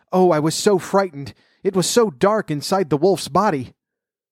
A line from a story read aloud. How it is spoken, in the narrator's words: the girl cried